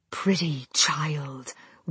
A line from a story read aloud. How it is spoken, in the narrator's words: whispered a voice in Najiri's ear